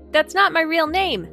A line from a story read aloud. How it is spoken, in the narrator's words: he shouts after her